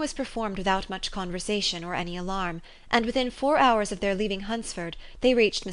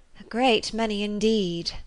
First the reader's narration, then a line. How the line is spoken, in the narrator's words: said her companion with a sigh